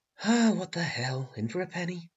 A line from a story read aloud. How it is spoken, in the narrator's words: she muttered